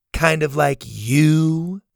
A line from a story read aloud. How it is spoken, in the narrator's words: Zada said in a sassy tone